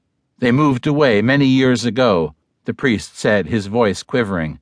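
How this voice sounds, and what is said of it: Usual voice. Nothing is said of it.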